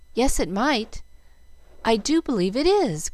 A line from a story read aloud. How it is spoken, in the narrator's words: cried Jill, hardly daring to trust her own eyes